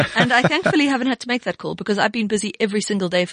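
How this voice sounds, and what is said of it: Usual voice. Nothing is said of it.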